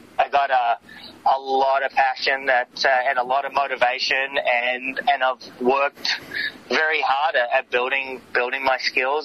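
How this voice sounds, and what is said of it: Noticeable foreign-sounding accent. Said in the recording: “I got a funny accent.”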